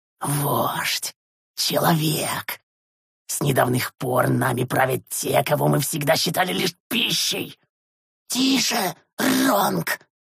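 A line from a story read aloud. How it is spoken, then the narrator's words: Young wheezing voice. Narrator (Russian): Просипел совсем молодой еще шурт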